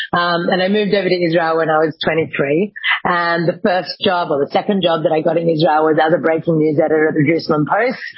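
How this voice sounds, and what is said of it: Australian accent. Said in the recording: “I'm Australian, as you can probably tell from my accent, hopefully tell from my accent.”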